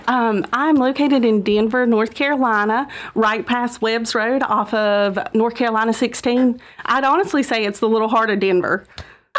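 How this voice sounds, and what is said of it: North Carolina accent. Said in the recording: “you didn't have to tell me you were born in North Carolina. The accent just gave you away.”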